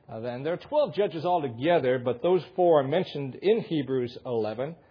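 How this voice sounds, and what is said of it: Michigan accent. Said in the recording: “You can't pronounce Hebrew with a Michigan accent very well.”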